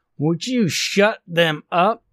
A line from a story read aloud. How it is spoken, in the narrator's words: Stone hollered after her